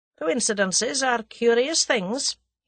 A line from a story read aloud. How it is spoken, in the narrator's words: he said dryly